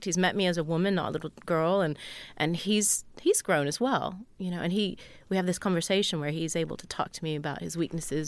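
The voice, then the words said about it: Slightly British-sounding accent. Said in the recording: “You sound a little British sometimes.”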